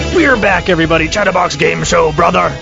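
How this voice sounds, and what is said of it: Gruff pro wrestler impression voice. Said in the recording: “my impression of Ara doing an impression of somebody. I don't know if it's Hulk Hogan or Randy Savage. ... Pro wrestler amalgamation.”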